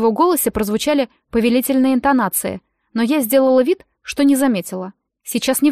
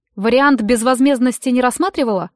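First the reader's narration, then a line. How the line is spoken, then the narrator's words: Smirking grunt. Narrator (Russian): хмыкнул он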